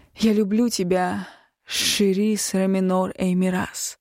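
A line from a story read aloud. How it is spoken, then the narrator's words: Breathy reply. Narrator (Russian): выдохнула в ответ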